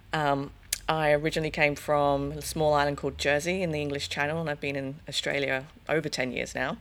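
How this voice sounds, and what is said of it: Hybrid English-Australian accent. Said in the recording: “I'm actually English, believe it or not, listening to me. The hybrid accent”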